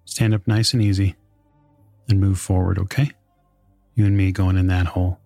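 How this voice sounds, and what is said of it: Rough male voice, American accent. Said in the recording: “a very rough male voice ... You can hear the American accent in his voice.”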